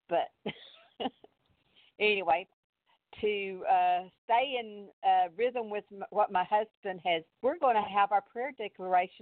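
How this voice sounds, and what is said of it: Strong Texas accent. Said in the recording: “I do have a very, very Texas out accent.”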